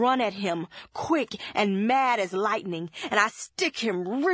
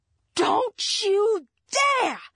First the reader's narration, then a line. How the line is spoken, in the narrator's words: yell like I'm throwing stones, and my mind's all gone red with my rage